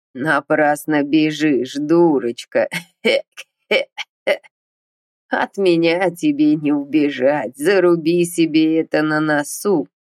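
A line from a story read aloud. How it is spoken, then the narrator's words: Creaky voice, nasty laughter. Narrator (Russian): Проскрипел с жутким противным смехом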